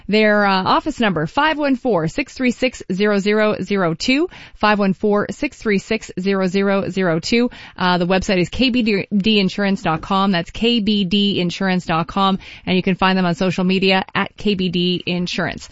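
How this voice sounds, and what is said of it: Polished radio announcer voice. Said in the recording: “how good your radio voice was... It's very good.”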